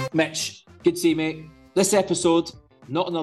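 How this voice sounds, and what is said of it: Usual voice. Nothing is said of it.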